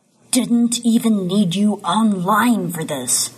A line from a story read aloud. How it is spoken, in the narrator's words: he growls